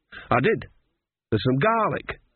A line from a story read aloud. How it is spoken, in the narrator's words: said Nanny happily